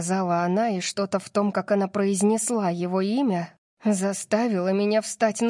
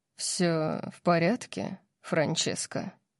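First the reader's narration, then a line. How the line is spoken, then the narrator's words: Velvety voice question. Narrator (Russian): спросил Орион бархатным голосом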